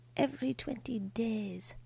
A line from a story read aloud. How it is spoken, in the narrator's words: Grandmother muttered